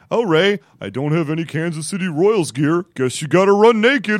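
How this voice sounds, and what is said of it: Imitates another person's voice and laugh. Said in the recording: “That's not how I laugh. ... It's a pretty good impression. ... I think it was spot on. ... I sound like I'm eating a freaking Hostess cupcake, and I don't want any of it to fall out of my mouth while I'm laughing.”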